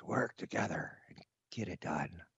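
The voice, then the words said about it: Weak, dying-sounding imitated voice. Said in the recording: “I'm going to use his dying voice.”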